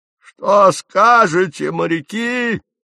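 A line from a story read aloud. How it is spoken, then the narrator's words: Shouted. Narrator (Russian): крикнул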